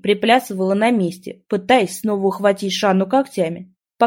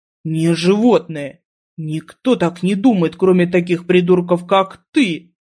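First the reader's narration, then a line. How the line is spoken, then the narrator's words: Growling. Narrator (Russian): прорычал Киман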